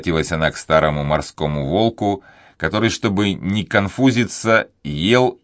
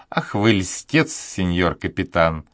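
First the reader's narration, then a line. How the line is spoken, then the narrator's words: Laughing remark. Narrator (Russian): заметила донья Хуана, смеясь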